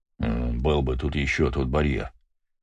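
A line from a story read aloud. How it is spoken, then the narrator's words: Muttering. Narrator (Russian): пробормотал Гаспар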